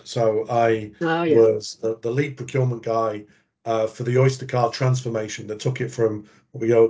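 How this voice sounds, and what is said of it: English accent. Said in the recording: “sort of gather from the accent ... growing up in England”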